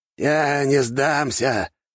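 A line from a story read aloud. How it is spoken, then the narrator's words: Wheezing, spitting blood. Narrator (Russian): прохрипел он, сплевывая кровь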